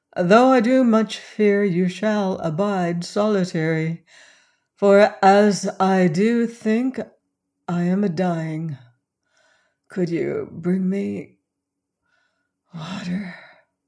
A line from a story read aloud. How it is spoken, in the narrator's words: The words ended in a sigh